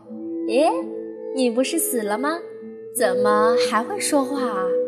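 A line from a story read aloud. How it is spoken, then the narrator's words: Laughing. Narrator (Chinese): 他就笑着说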